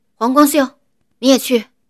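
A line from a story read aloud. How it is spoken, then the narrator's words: Calling out. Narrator (Chinese): 马威又喊道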